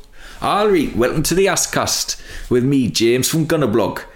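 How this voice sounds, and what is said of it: Put-on Geordie accent. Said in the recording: “they keep presenting me with new accents I have to do ... I've spent the last 2 days doing Geordie. Shall I do it now?”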